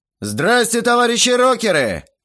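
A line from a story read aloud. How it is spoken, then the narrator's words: Barking into microphone. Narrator (Russian): рявкнул я в микрофон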